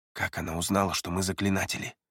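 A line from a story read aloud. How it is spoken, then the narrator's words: Quiet question. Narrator (Russian): Тихо задал вопрос Эриас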